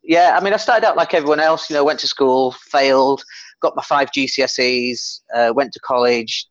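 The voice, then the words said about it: Leeds English accent. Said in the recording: “I come from Leeds, and you might be able to tell from the accent.”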